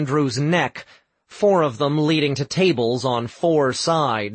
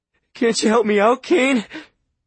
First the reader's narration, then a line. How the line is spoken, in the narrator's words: Andrew pleaded